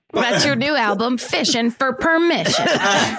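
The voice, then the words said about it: Put-on Southern American accent. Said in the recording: “I did the accent... right to do to a southerner... They sound southern”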